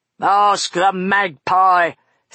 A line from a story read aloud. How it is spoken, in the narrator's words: spat Buster